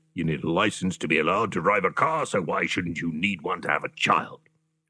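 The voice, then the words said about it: Impression of Mike Dickin. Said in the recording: “That was my impersonation of the late, great Mike Dickin.”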